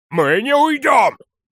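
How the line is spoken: Loud bark. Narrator (Russian): гаркнул Бралда

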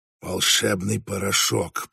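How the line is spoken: Hissing. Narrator (Russian): прошипел Фредерик

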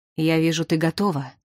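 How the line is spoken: Solemn voice. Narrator (Russian): все тем же торжественным голосом проговорил Дош

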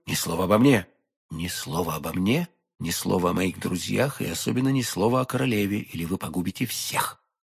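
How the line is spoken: Whispering. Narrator (Russian): прошептал Д'Артаньян

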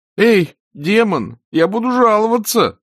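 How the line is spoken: Groaning. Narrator (Russian): простонал Эрик

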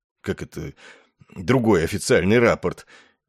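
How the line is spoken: Frightened surprised mutter. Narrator (Russian): испуганно и удивленно пробормотал Ессариан

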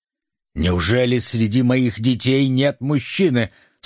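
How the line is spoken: Stern exclamation. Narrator (Russian): сурово воскликнула Эстер

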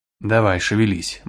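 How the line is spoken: Gloomy. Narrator (Russian): мрачно сказала она

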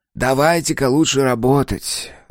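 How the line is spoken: Sigh. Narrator (Russian): вздохнул Дизраэли

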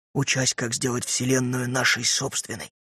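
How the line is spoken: Reverent whisper. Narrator (Russian): шептал Пэт, благоговейно понизив голос

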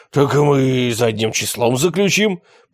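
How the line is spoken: Hoarse wheeze. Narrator (Russian): прохрипел Киластый

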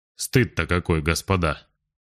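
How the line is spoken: Gloomy deep voice. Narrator (Russian): лейтенант Фаленберг, вспоминая вчерашнее, сумрачно пробасил

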